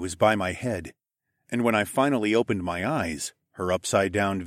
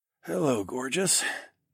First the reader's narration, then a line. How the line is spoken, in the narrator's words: I croaked out in a rusty voice